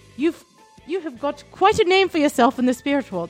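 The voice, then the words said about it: Put-on British accent. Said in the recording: “Oh, I like that accent. ... My shitty British accent.”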